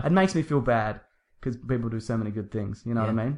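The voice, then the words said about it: New York accent. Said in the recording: “I presume she means my New York accent.”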